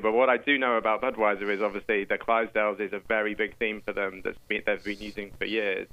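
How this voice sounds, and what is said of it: Non-American accent. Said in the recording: “as you can tell from my accent, I'm not that familiar with everything that's happened in America”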